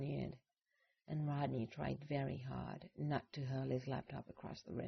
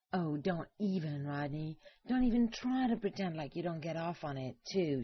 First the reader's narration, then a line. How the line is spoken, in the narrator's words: she shrieked